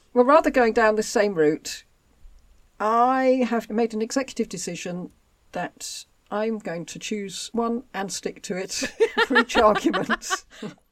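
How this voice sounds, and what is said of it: English home counties accent. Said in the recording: “I was born in Aylesbury in Buckinghamshire, as my accent will probably give away. Born in the home counties.”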